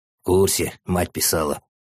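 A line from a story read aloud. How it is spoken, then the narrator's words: Grumble in childish bass. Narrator (Russian): проворчал детским басом Артем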